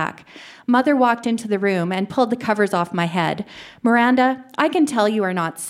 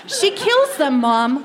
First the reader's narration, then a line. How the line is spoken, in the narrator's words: I yelled